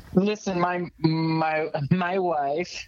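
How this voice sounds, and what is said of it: Borat character voice. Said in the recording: “that Borat impression ... It's a good one”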